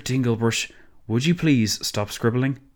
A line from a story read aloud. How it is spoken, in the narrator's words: Imons sighed, as patiently as he could manage